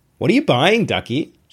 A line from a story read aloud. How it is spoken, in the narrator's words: called out